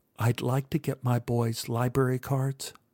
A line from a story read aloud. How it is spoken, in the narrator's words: whispered